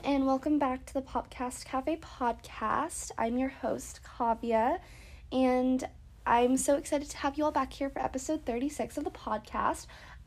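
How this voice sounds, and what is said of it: Congested, stuffy-nosed voice. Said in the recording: “I sound really congested right now... my nose is just running or something”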